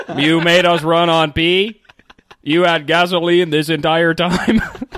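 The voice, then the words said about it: Robot voice. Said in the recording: “I have one robot voice”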